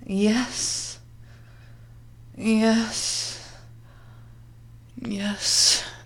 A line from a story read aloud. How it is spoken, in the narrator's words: Maria groaned, still shaking from the effects of her erotic climax